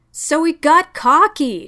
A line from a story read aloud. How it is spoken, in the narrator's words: retorted hotly